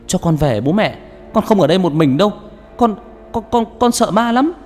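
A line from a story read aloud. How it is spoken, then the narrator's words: Frightened child wailing. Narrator (Vietnamese): nó gào lên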